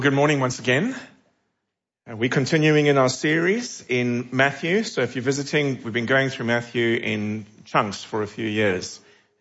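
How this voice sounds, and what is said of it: South African accent. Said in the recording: “you might tell from my accent, I'm not originally from here. I'm originally from South Africa, although people sometimes think that I'm from England ... I don't know if I sound English with my accent. Probably not.”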